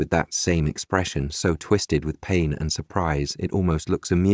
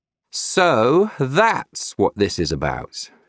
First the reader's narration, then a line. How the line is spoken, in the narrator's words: he says at full volume, sneering